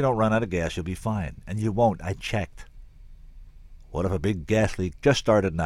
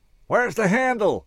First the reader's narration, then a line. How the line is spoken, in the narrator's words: I yelled back up to Lena